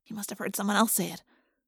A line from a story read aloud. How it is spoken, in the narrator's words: I whispered to Jake